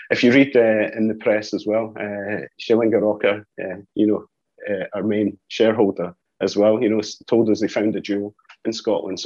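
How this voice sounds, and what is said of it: Scottish accent. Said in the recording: “You can hear by the accent, I'm Scottish as well.”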